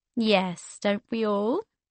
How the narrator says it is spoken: she chuckled

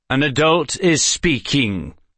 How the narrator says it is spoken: Dalgarel said in a hard tone

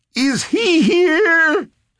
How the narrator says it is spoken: Fenny shrieked

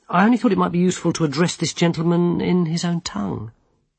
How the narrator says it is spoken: said the wizard gently

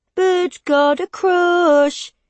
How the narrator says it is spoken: he taunts in an annoying sing-songy voice

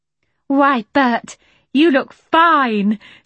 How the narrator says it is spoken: she cried in an admiring voice

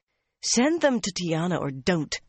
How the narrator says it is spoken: Mirella snapped

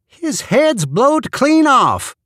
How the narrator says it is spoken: called to them excitedly

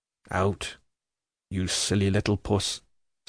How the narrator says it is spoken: says the ironmaster, checking her in a low voice, though not angrily

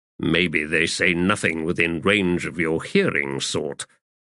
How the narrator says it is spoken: Kindly muttered

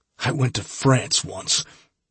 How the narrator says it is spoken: gasped

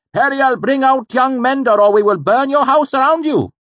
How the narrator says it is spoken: the smith cried out again

